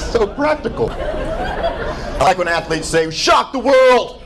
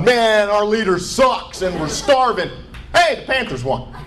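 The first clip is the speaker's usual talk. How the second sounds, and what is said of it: Put-on southern American accent. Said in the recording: “my imitation of a North Korean right there with a southern accent.”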